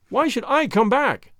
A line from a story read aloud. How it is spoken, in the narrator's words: cried